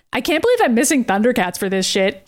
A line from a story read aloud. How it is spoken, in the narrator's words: Katie said in a passing tone